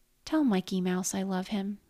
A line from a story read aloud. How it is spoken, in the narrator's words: he said